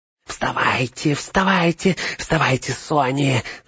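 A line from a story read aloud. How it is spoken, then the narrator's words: Whisper. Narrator (Russian): зашептал он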